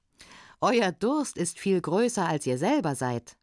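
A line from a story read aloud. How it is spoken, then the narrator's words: Farmer laughing. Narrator (German): lachte der Bauer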